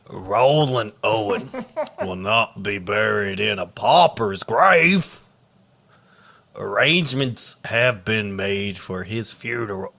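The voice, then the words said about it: Rough pirate character voice. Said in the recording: “You sound like a syphilitic pirate.”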